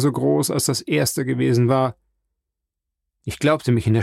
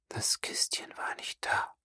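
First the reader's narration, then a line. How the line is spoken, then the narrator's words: Choked frightened murmur. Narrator (German): murmelte Frau Danglars, vom Schrecken beinahe erstickt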